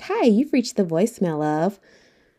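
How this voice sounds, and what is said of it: Polished professional voicemail voice. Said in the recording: “put on my professional voice”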